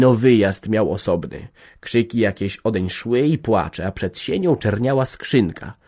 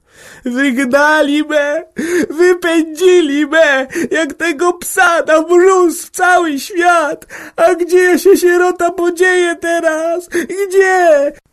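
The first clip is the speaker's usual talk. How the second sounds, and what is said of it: Crying and screaming at full voice. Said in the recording (Polish): “zanosiła się płaczem i krzyczała w niebogłosy”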